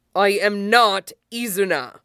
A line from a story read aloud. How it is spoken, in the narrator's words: he snaps